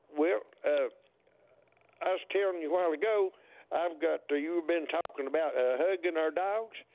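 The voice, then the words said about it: Tennessee Southern accent. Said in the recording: “you have as much of a Tennessee accent as I have a New York accent”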